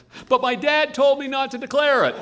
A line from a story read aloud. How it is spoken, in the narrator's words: blurted Dave